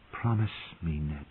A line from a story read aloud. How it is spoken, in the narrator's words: his sister had whispered from her bed of blood